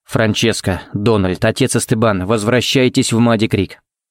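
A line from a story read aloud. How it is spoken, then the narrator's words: Very even, calm tone. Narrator (Russian): сказал он самым ровным и спокойным тоном, на какой был способен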